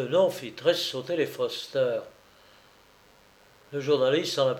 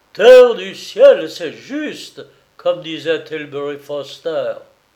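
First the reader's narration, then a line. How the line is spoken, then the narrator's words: Exclaimed. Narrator (French): le directeur du Sagamore s'écria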